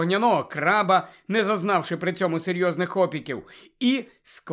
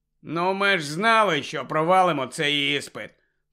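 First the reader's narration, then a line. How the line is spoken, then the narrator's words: Gloomy grumble. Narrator (Ukrainian): похмуро буркнув Рон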